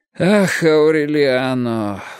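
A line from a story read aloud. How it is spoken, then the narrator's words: Sighing. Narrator (Russian): вздохнул он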